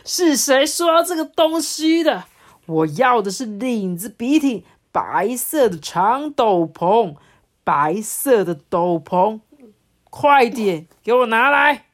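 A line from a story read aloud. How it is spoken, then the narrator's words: Loud angry roar. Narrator (Chinese): 国王大声的吼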